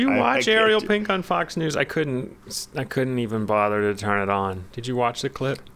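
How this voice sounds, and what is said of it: Usual voice. Nothing is said of it.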